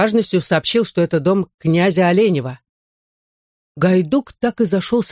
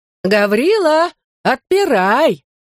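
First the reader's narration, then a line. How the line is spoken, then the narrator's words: Sweet shout. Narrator (Russian): сладко крикнул Лука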